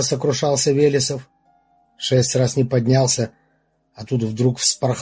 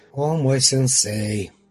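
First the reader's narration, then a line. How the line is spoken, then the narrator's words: Tired muttering, smiling. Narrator (Russian): Устало улыбаясь, ответил себе под нос Игорь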